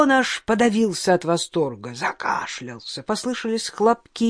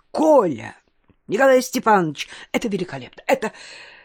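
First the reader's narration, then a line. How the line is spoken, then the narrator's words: Excited rapid chatter. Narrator (Russian): восторженно затараторил Чуковский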